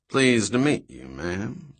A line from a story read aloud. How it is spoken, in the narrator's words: the man said in a deep-voiced southern drawl